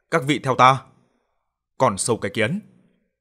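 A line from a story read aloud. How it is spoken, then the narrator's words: Shouting. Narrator (Vietnamese): Trương Đạo Nam mồm la hét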